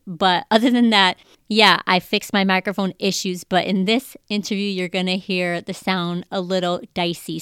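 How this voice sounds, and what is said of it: Congested voice from a cold. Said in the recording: “My voice sounds different because I have a cold.”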